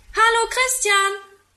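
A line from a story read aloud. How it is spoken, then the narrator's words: Calling from window. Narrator (German): ruft er aus dem Fenster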